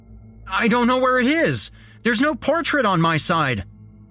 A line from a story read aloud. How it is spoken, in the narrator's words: yelled back